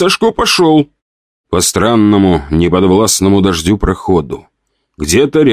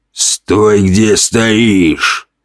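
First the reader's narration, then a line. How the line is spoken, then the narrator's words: Hoarse bass from behind. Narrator (Russian): раздался за спиной хриплый бас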